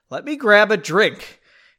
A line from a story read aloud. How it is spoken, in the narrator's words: Pulley yelled